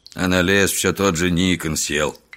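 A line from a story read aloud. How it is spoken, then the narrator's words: Muttered. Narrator (Russian): буркнул Солдатиков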